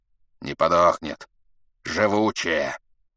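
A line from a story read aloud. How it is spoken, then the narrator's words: Angry old man's wheeze. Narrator (Russian): хрипел от злости старик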